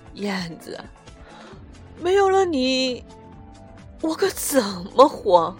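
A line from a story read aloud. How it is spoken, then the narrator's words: Heart-wrenching sobbing cry. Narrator (Chinese): 拿出整个生命来哭泣，撕心裂肺的呼喊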